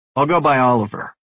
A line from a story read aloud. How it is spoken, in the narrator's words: I say firmly